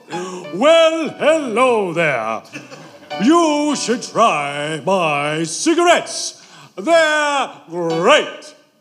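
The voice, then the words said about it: Imitated voice, sounds like Santa Claus. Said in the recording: “Was that you trying to do an imitation of him?... Kind of sounds like Santa Claus.”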